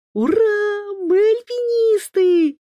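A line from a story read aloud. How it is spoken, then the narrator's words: Delighted children's squeals. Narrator (Russian): завизжали от восторга близнецы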